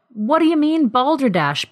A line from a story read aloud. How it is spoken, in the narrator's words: Bill exclaimed